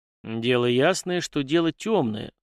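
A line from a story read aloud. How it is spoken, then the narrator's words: Gloomy drawl, captain. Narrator (Russian): мрачно протянул капитан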